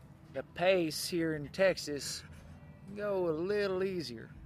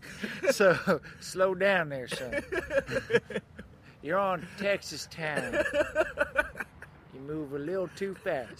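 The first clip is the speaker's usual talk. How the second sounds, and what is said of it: Exaggerated Texan drawl. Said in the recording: “you gotta put a little drawl on it, though. Texas time.”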